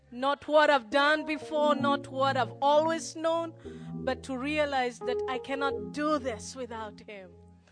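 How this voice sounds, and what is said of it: Kenyan accent with American influence. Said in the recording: “my accent sounds a little weird, it's because I'm torn between three accents... I am a Nairobian... I am a Kikuyu... I'm trying to fit into the American accent, which normally doesn't work”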